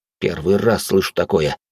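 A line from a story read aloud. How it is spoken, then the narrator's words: Displeased grumble. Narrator (Russian): буркнул недовольный парень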